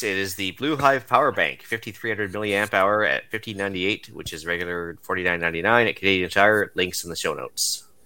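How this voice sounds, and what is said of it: Nerdy safety-announcer character voice. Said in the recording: “In my best safety nerd voice”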